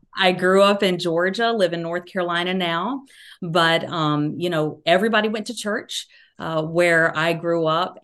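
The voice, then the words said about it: Southern American accent. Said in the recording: “You can hear my Southern accent.”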